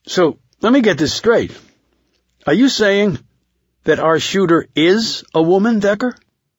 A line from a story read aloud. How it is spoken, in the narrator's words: Bogart exclaimed